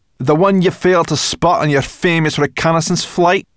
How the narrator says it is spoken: snapped Sorrel

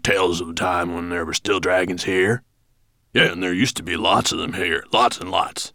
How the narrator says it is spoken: added Granite Face, sadly

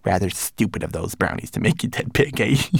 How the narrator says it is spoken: He chuckled gleefully

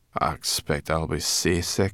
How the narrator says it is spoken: she muttered

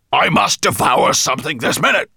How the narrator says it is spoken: he bellowed

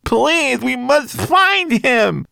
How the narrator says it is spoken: wailed Twigleg

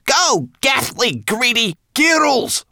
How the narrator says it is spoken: cried Sorrel

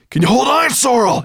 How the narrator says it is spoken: gasped

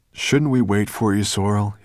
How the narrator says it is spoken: called anxiously

